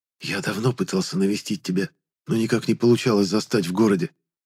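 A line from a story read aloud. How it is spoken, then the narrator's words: Whisper in the ear. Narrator (Russian): прошептал я Веде на ухо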